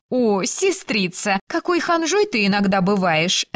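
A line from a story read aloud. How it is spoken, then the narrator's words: Woman laughing. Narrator (Russian): рассмеялась Беннон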